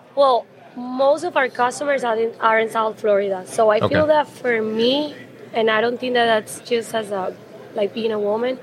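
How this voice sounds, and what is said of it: Strong non-native accent. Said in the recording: “you can tell that I have a strong accent ... they just got used to my accent”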